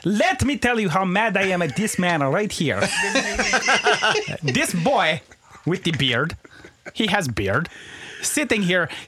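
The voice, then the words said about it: Comic Greek character voice, broken English. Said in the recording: “Greek cousin Babashka ... you did that voice”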